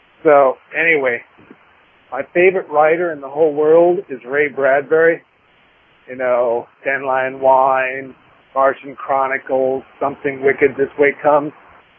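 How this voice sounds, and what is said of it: Creepy put-on voice. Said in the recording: “creepy voice”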